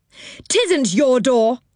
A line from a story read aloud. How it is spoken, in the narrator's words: shouted Moonface